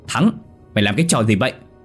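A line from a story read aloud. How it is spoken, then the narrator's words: Panicked shout. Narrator (Vietnamese): Hắn hốt hoảng hét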